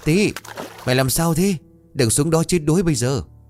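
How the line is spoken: Frantic children shouting. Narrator (Vietnamese): hai thằng trẻ con cuống cuồng chạy tới vừa hét

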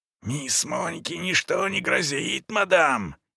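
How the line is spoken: Furious whisper. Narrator (Russian): яростно прошептала она

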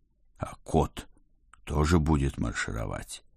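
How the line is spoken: Whispered clarification. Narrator (Russian): шепотом уточнил

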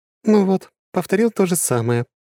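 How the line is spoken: Sighing. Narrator (Russian): вздохнула Лора

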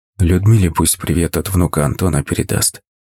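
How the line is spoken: Whispered. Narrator (Russian): шепнул

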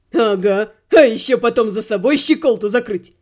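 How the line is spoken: Snorting. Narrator (Russian): Хмыкнул сэр Кит

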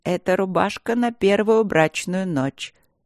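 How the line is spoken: Calm explanation, queen. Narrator (Russian): спокойно объясняла королева Ридьяла

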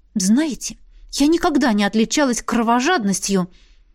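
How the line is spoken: Sinister whisper. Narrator (Russian): зловеще прошептала Беатриса

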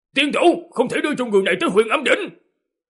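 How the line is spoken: Loud shout from crowd. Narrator (Vietnamese): có một tiếng hét lớn từ trong đám người phát ra

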